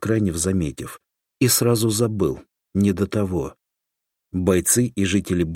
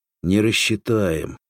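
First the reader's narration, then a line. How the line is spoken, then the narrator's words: Sighing. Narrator (Russian): вздохнул Соломатин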